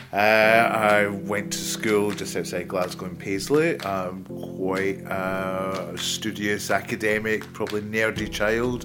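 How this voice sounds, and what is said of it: Glaswegian Scottish accent. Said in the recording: “I was born in Glasgow, as you can probably tell from the accent.”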